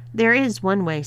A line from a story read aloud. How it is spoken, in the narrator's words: said Paige, giggling